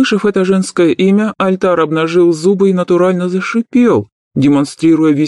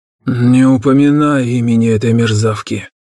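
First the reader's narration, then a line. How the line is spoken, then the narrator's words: Growl. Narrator (Russian): рыкнул Нак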